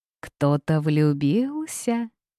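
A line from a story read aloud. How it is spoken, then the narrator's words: Almost purring. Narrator (Russian): почти промурлыкал Лив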